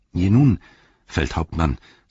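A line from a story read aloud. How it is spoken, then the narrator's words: Plain. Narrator (German): sagte Sam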